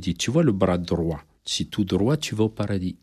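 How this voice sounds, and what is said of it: Imitating a man's accent. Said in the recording (French): “en reprenant son accent”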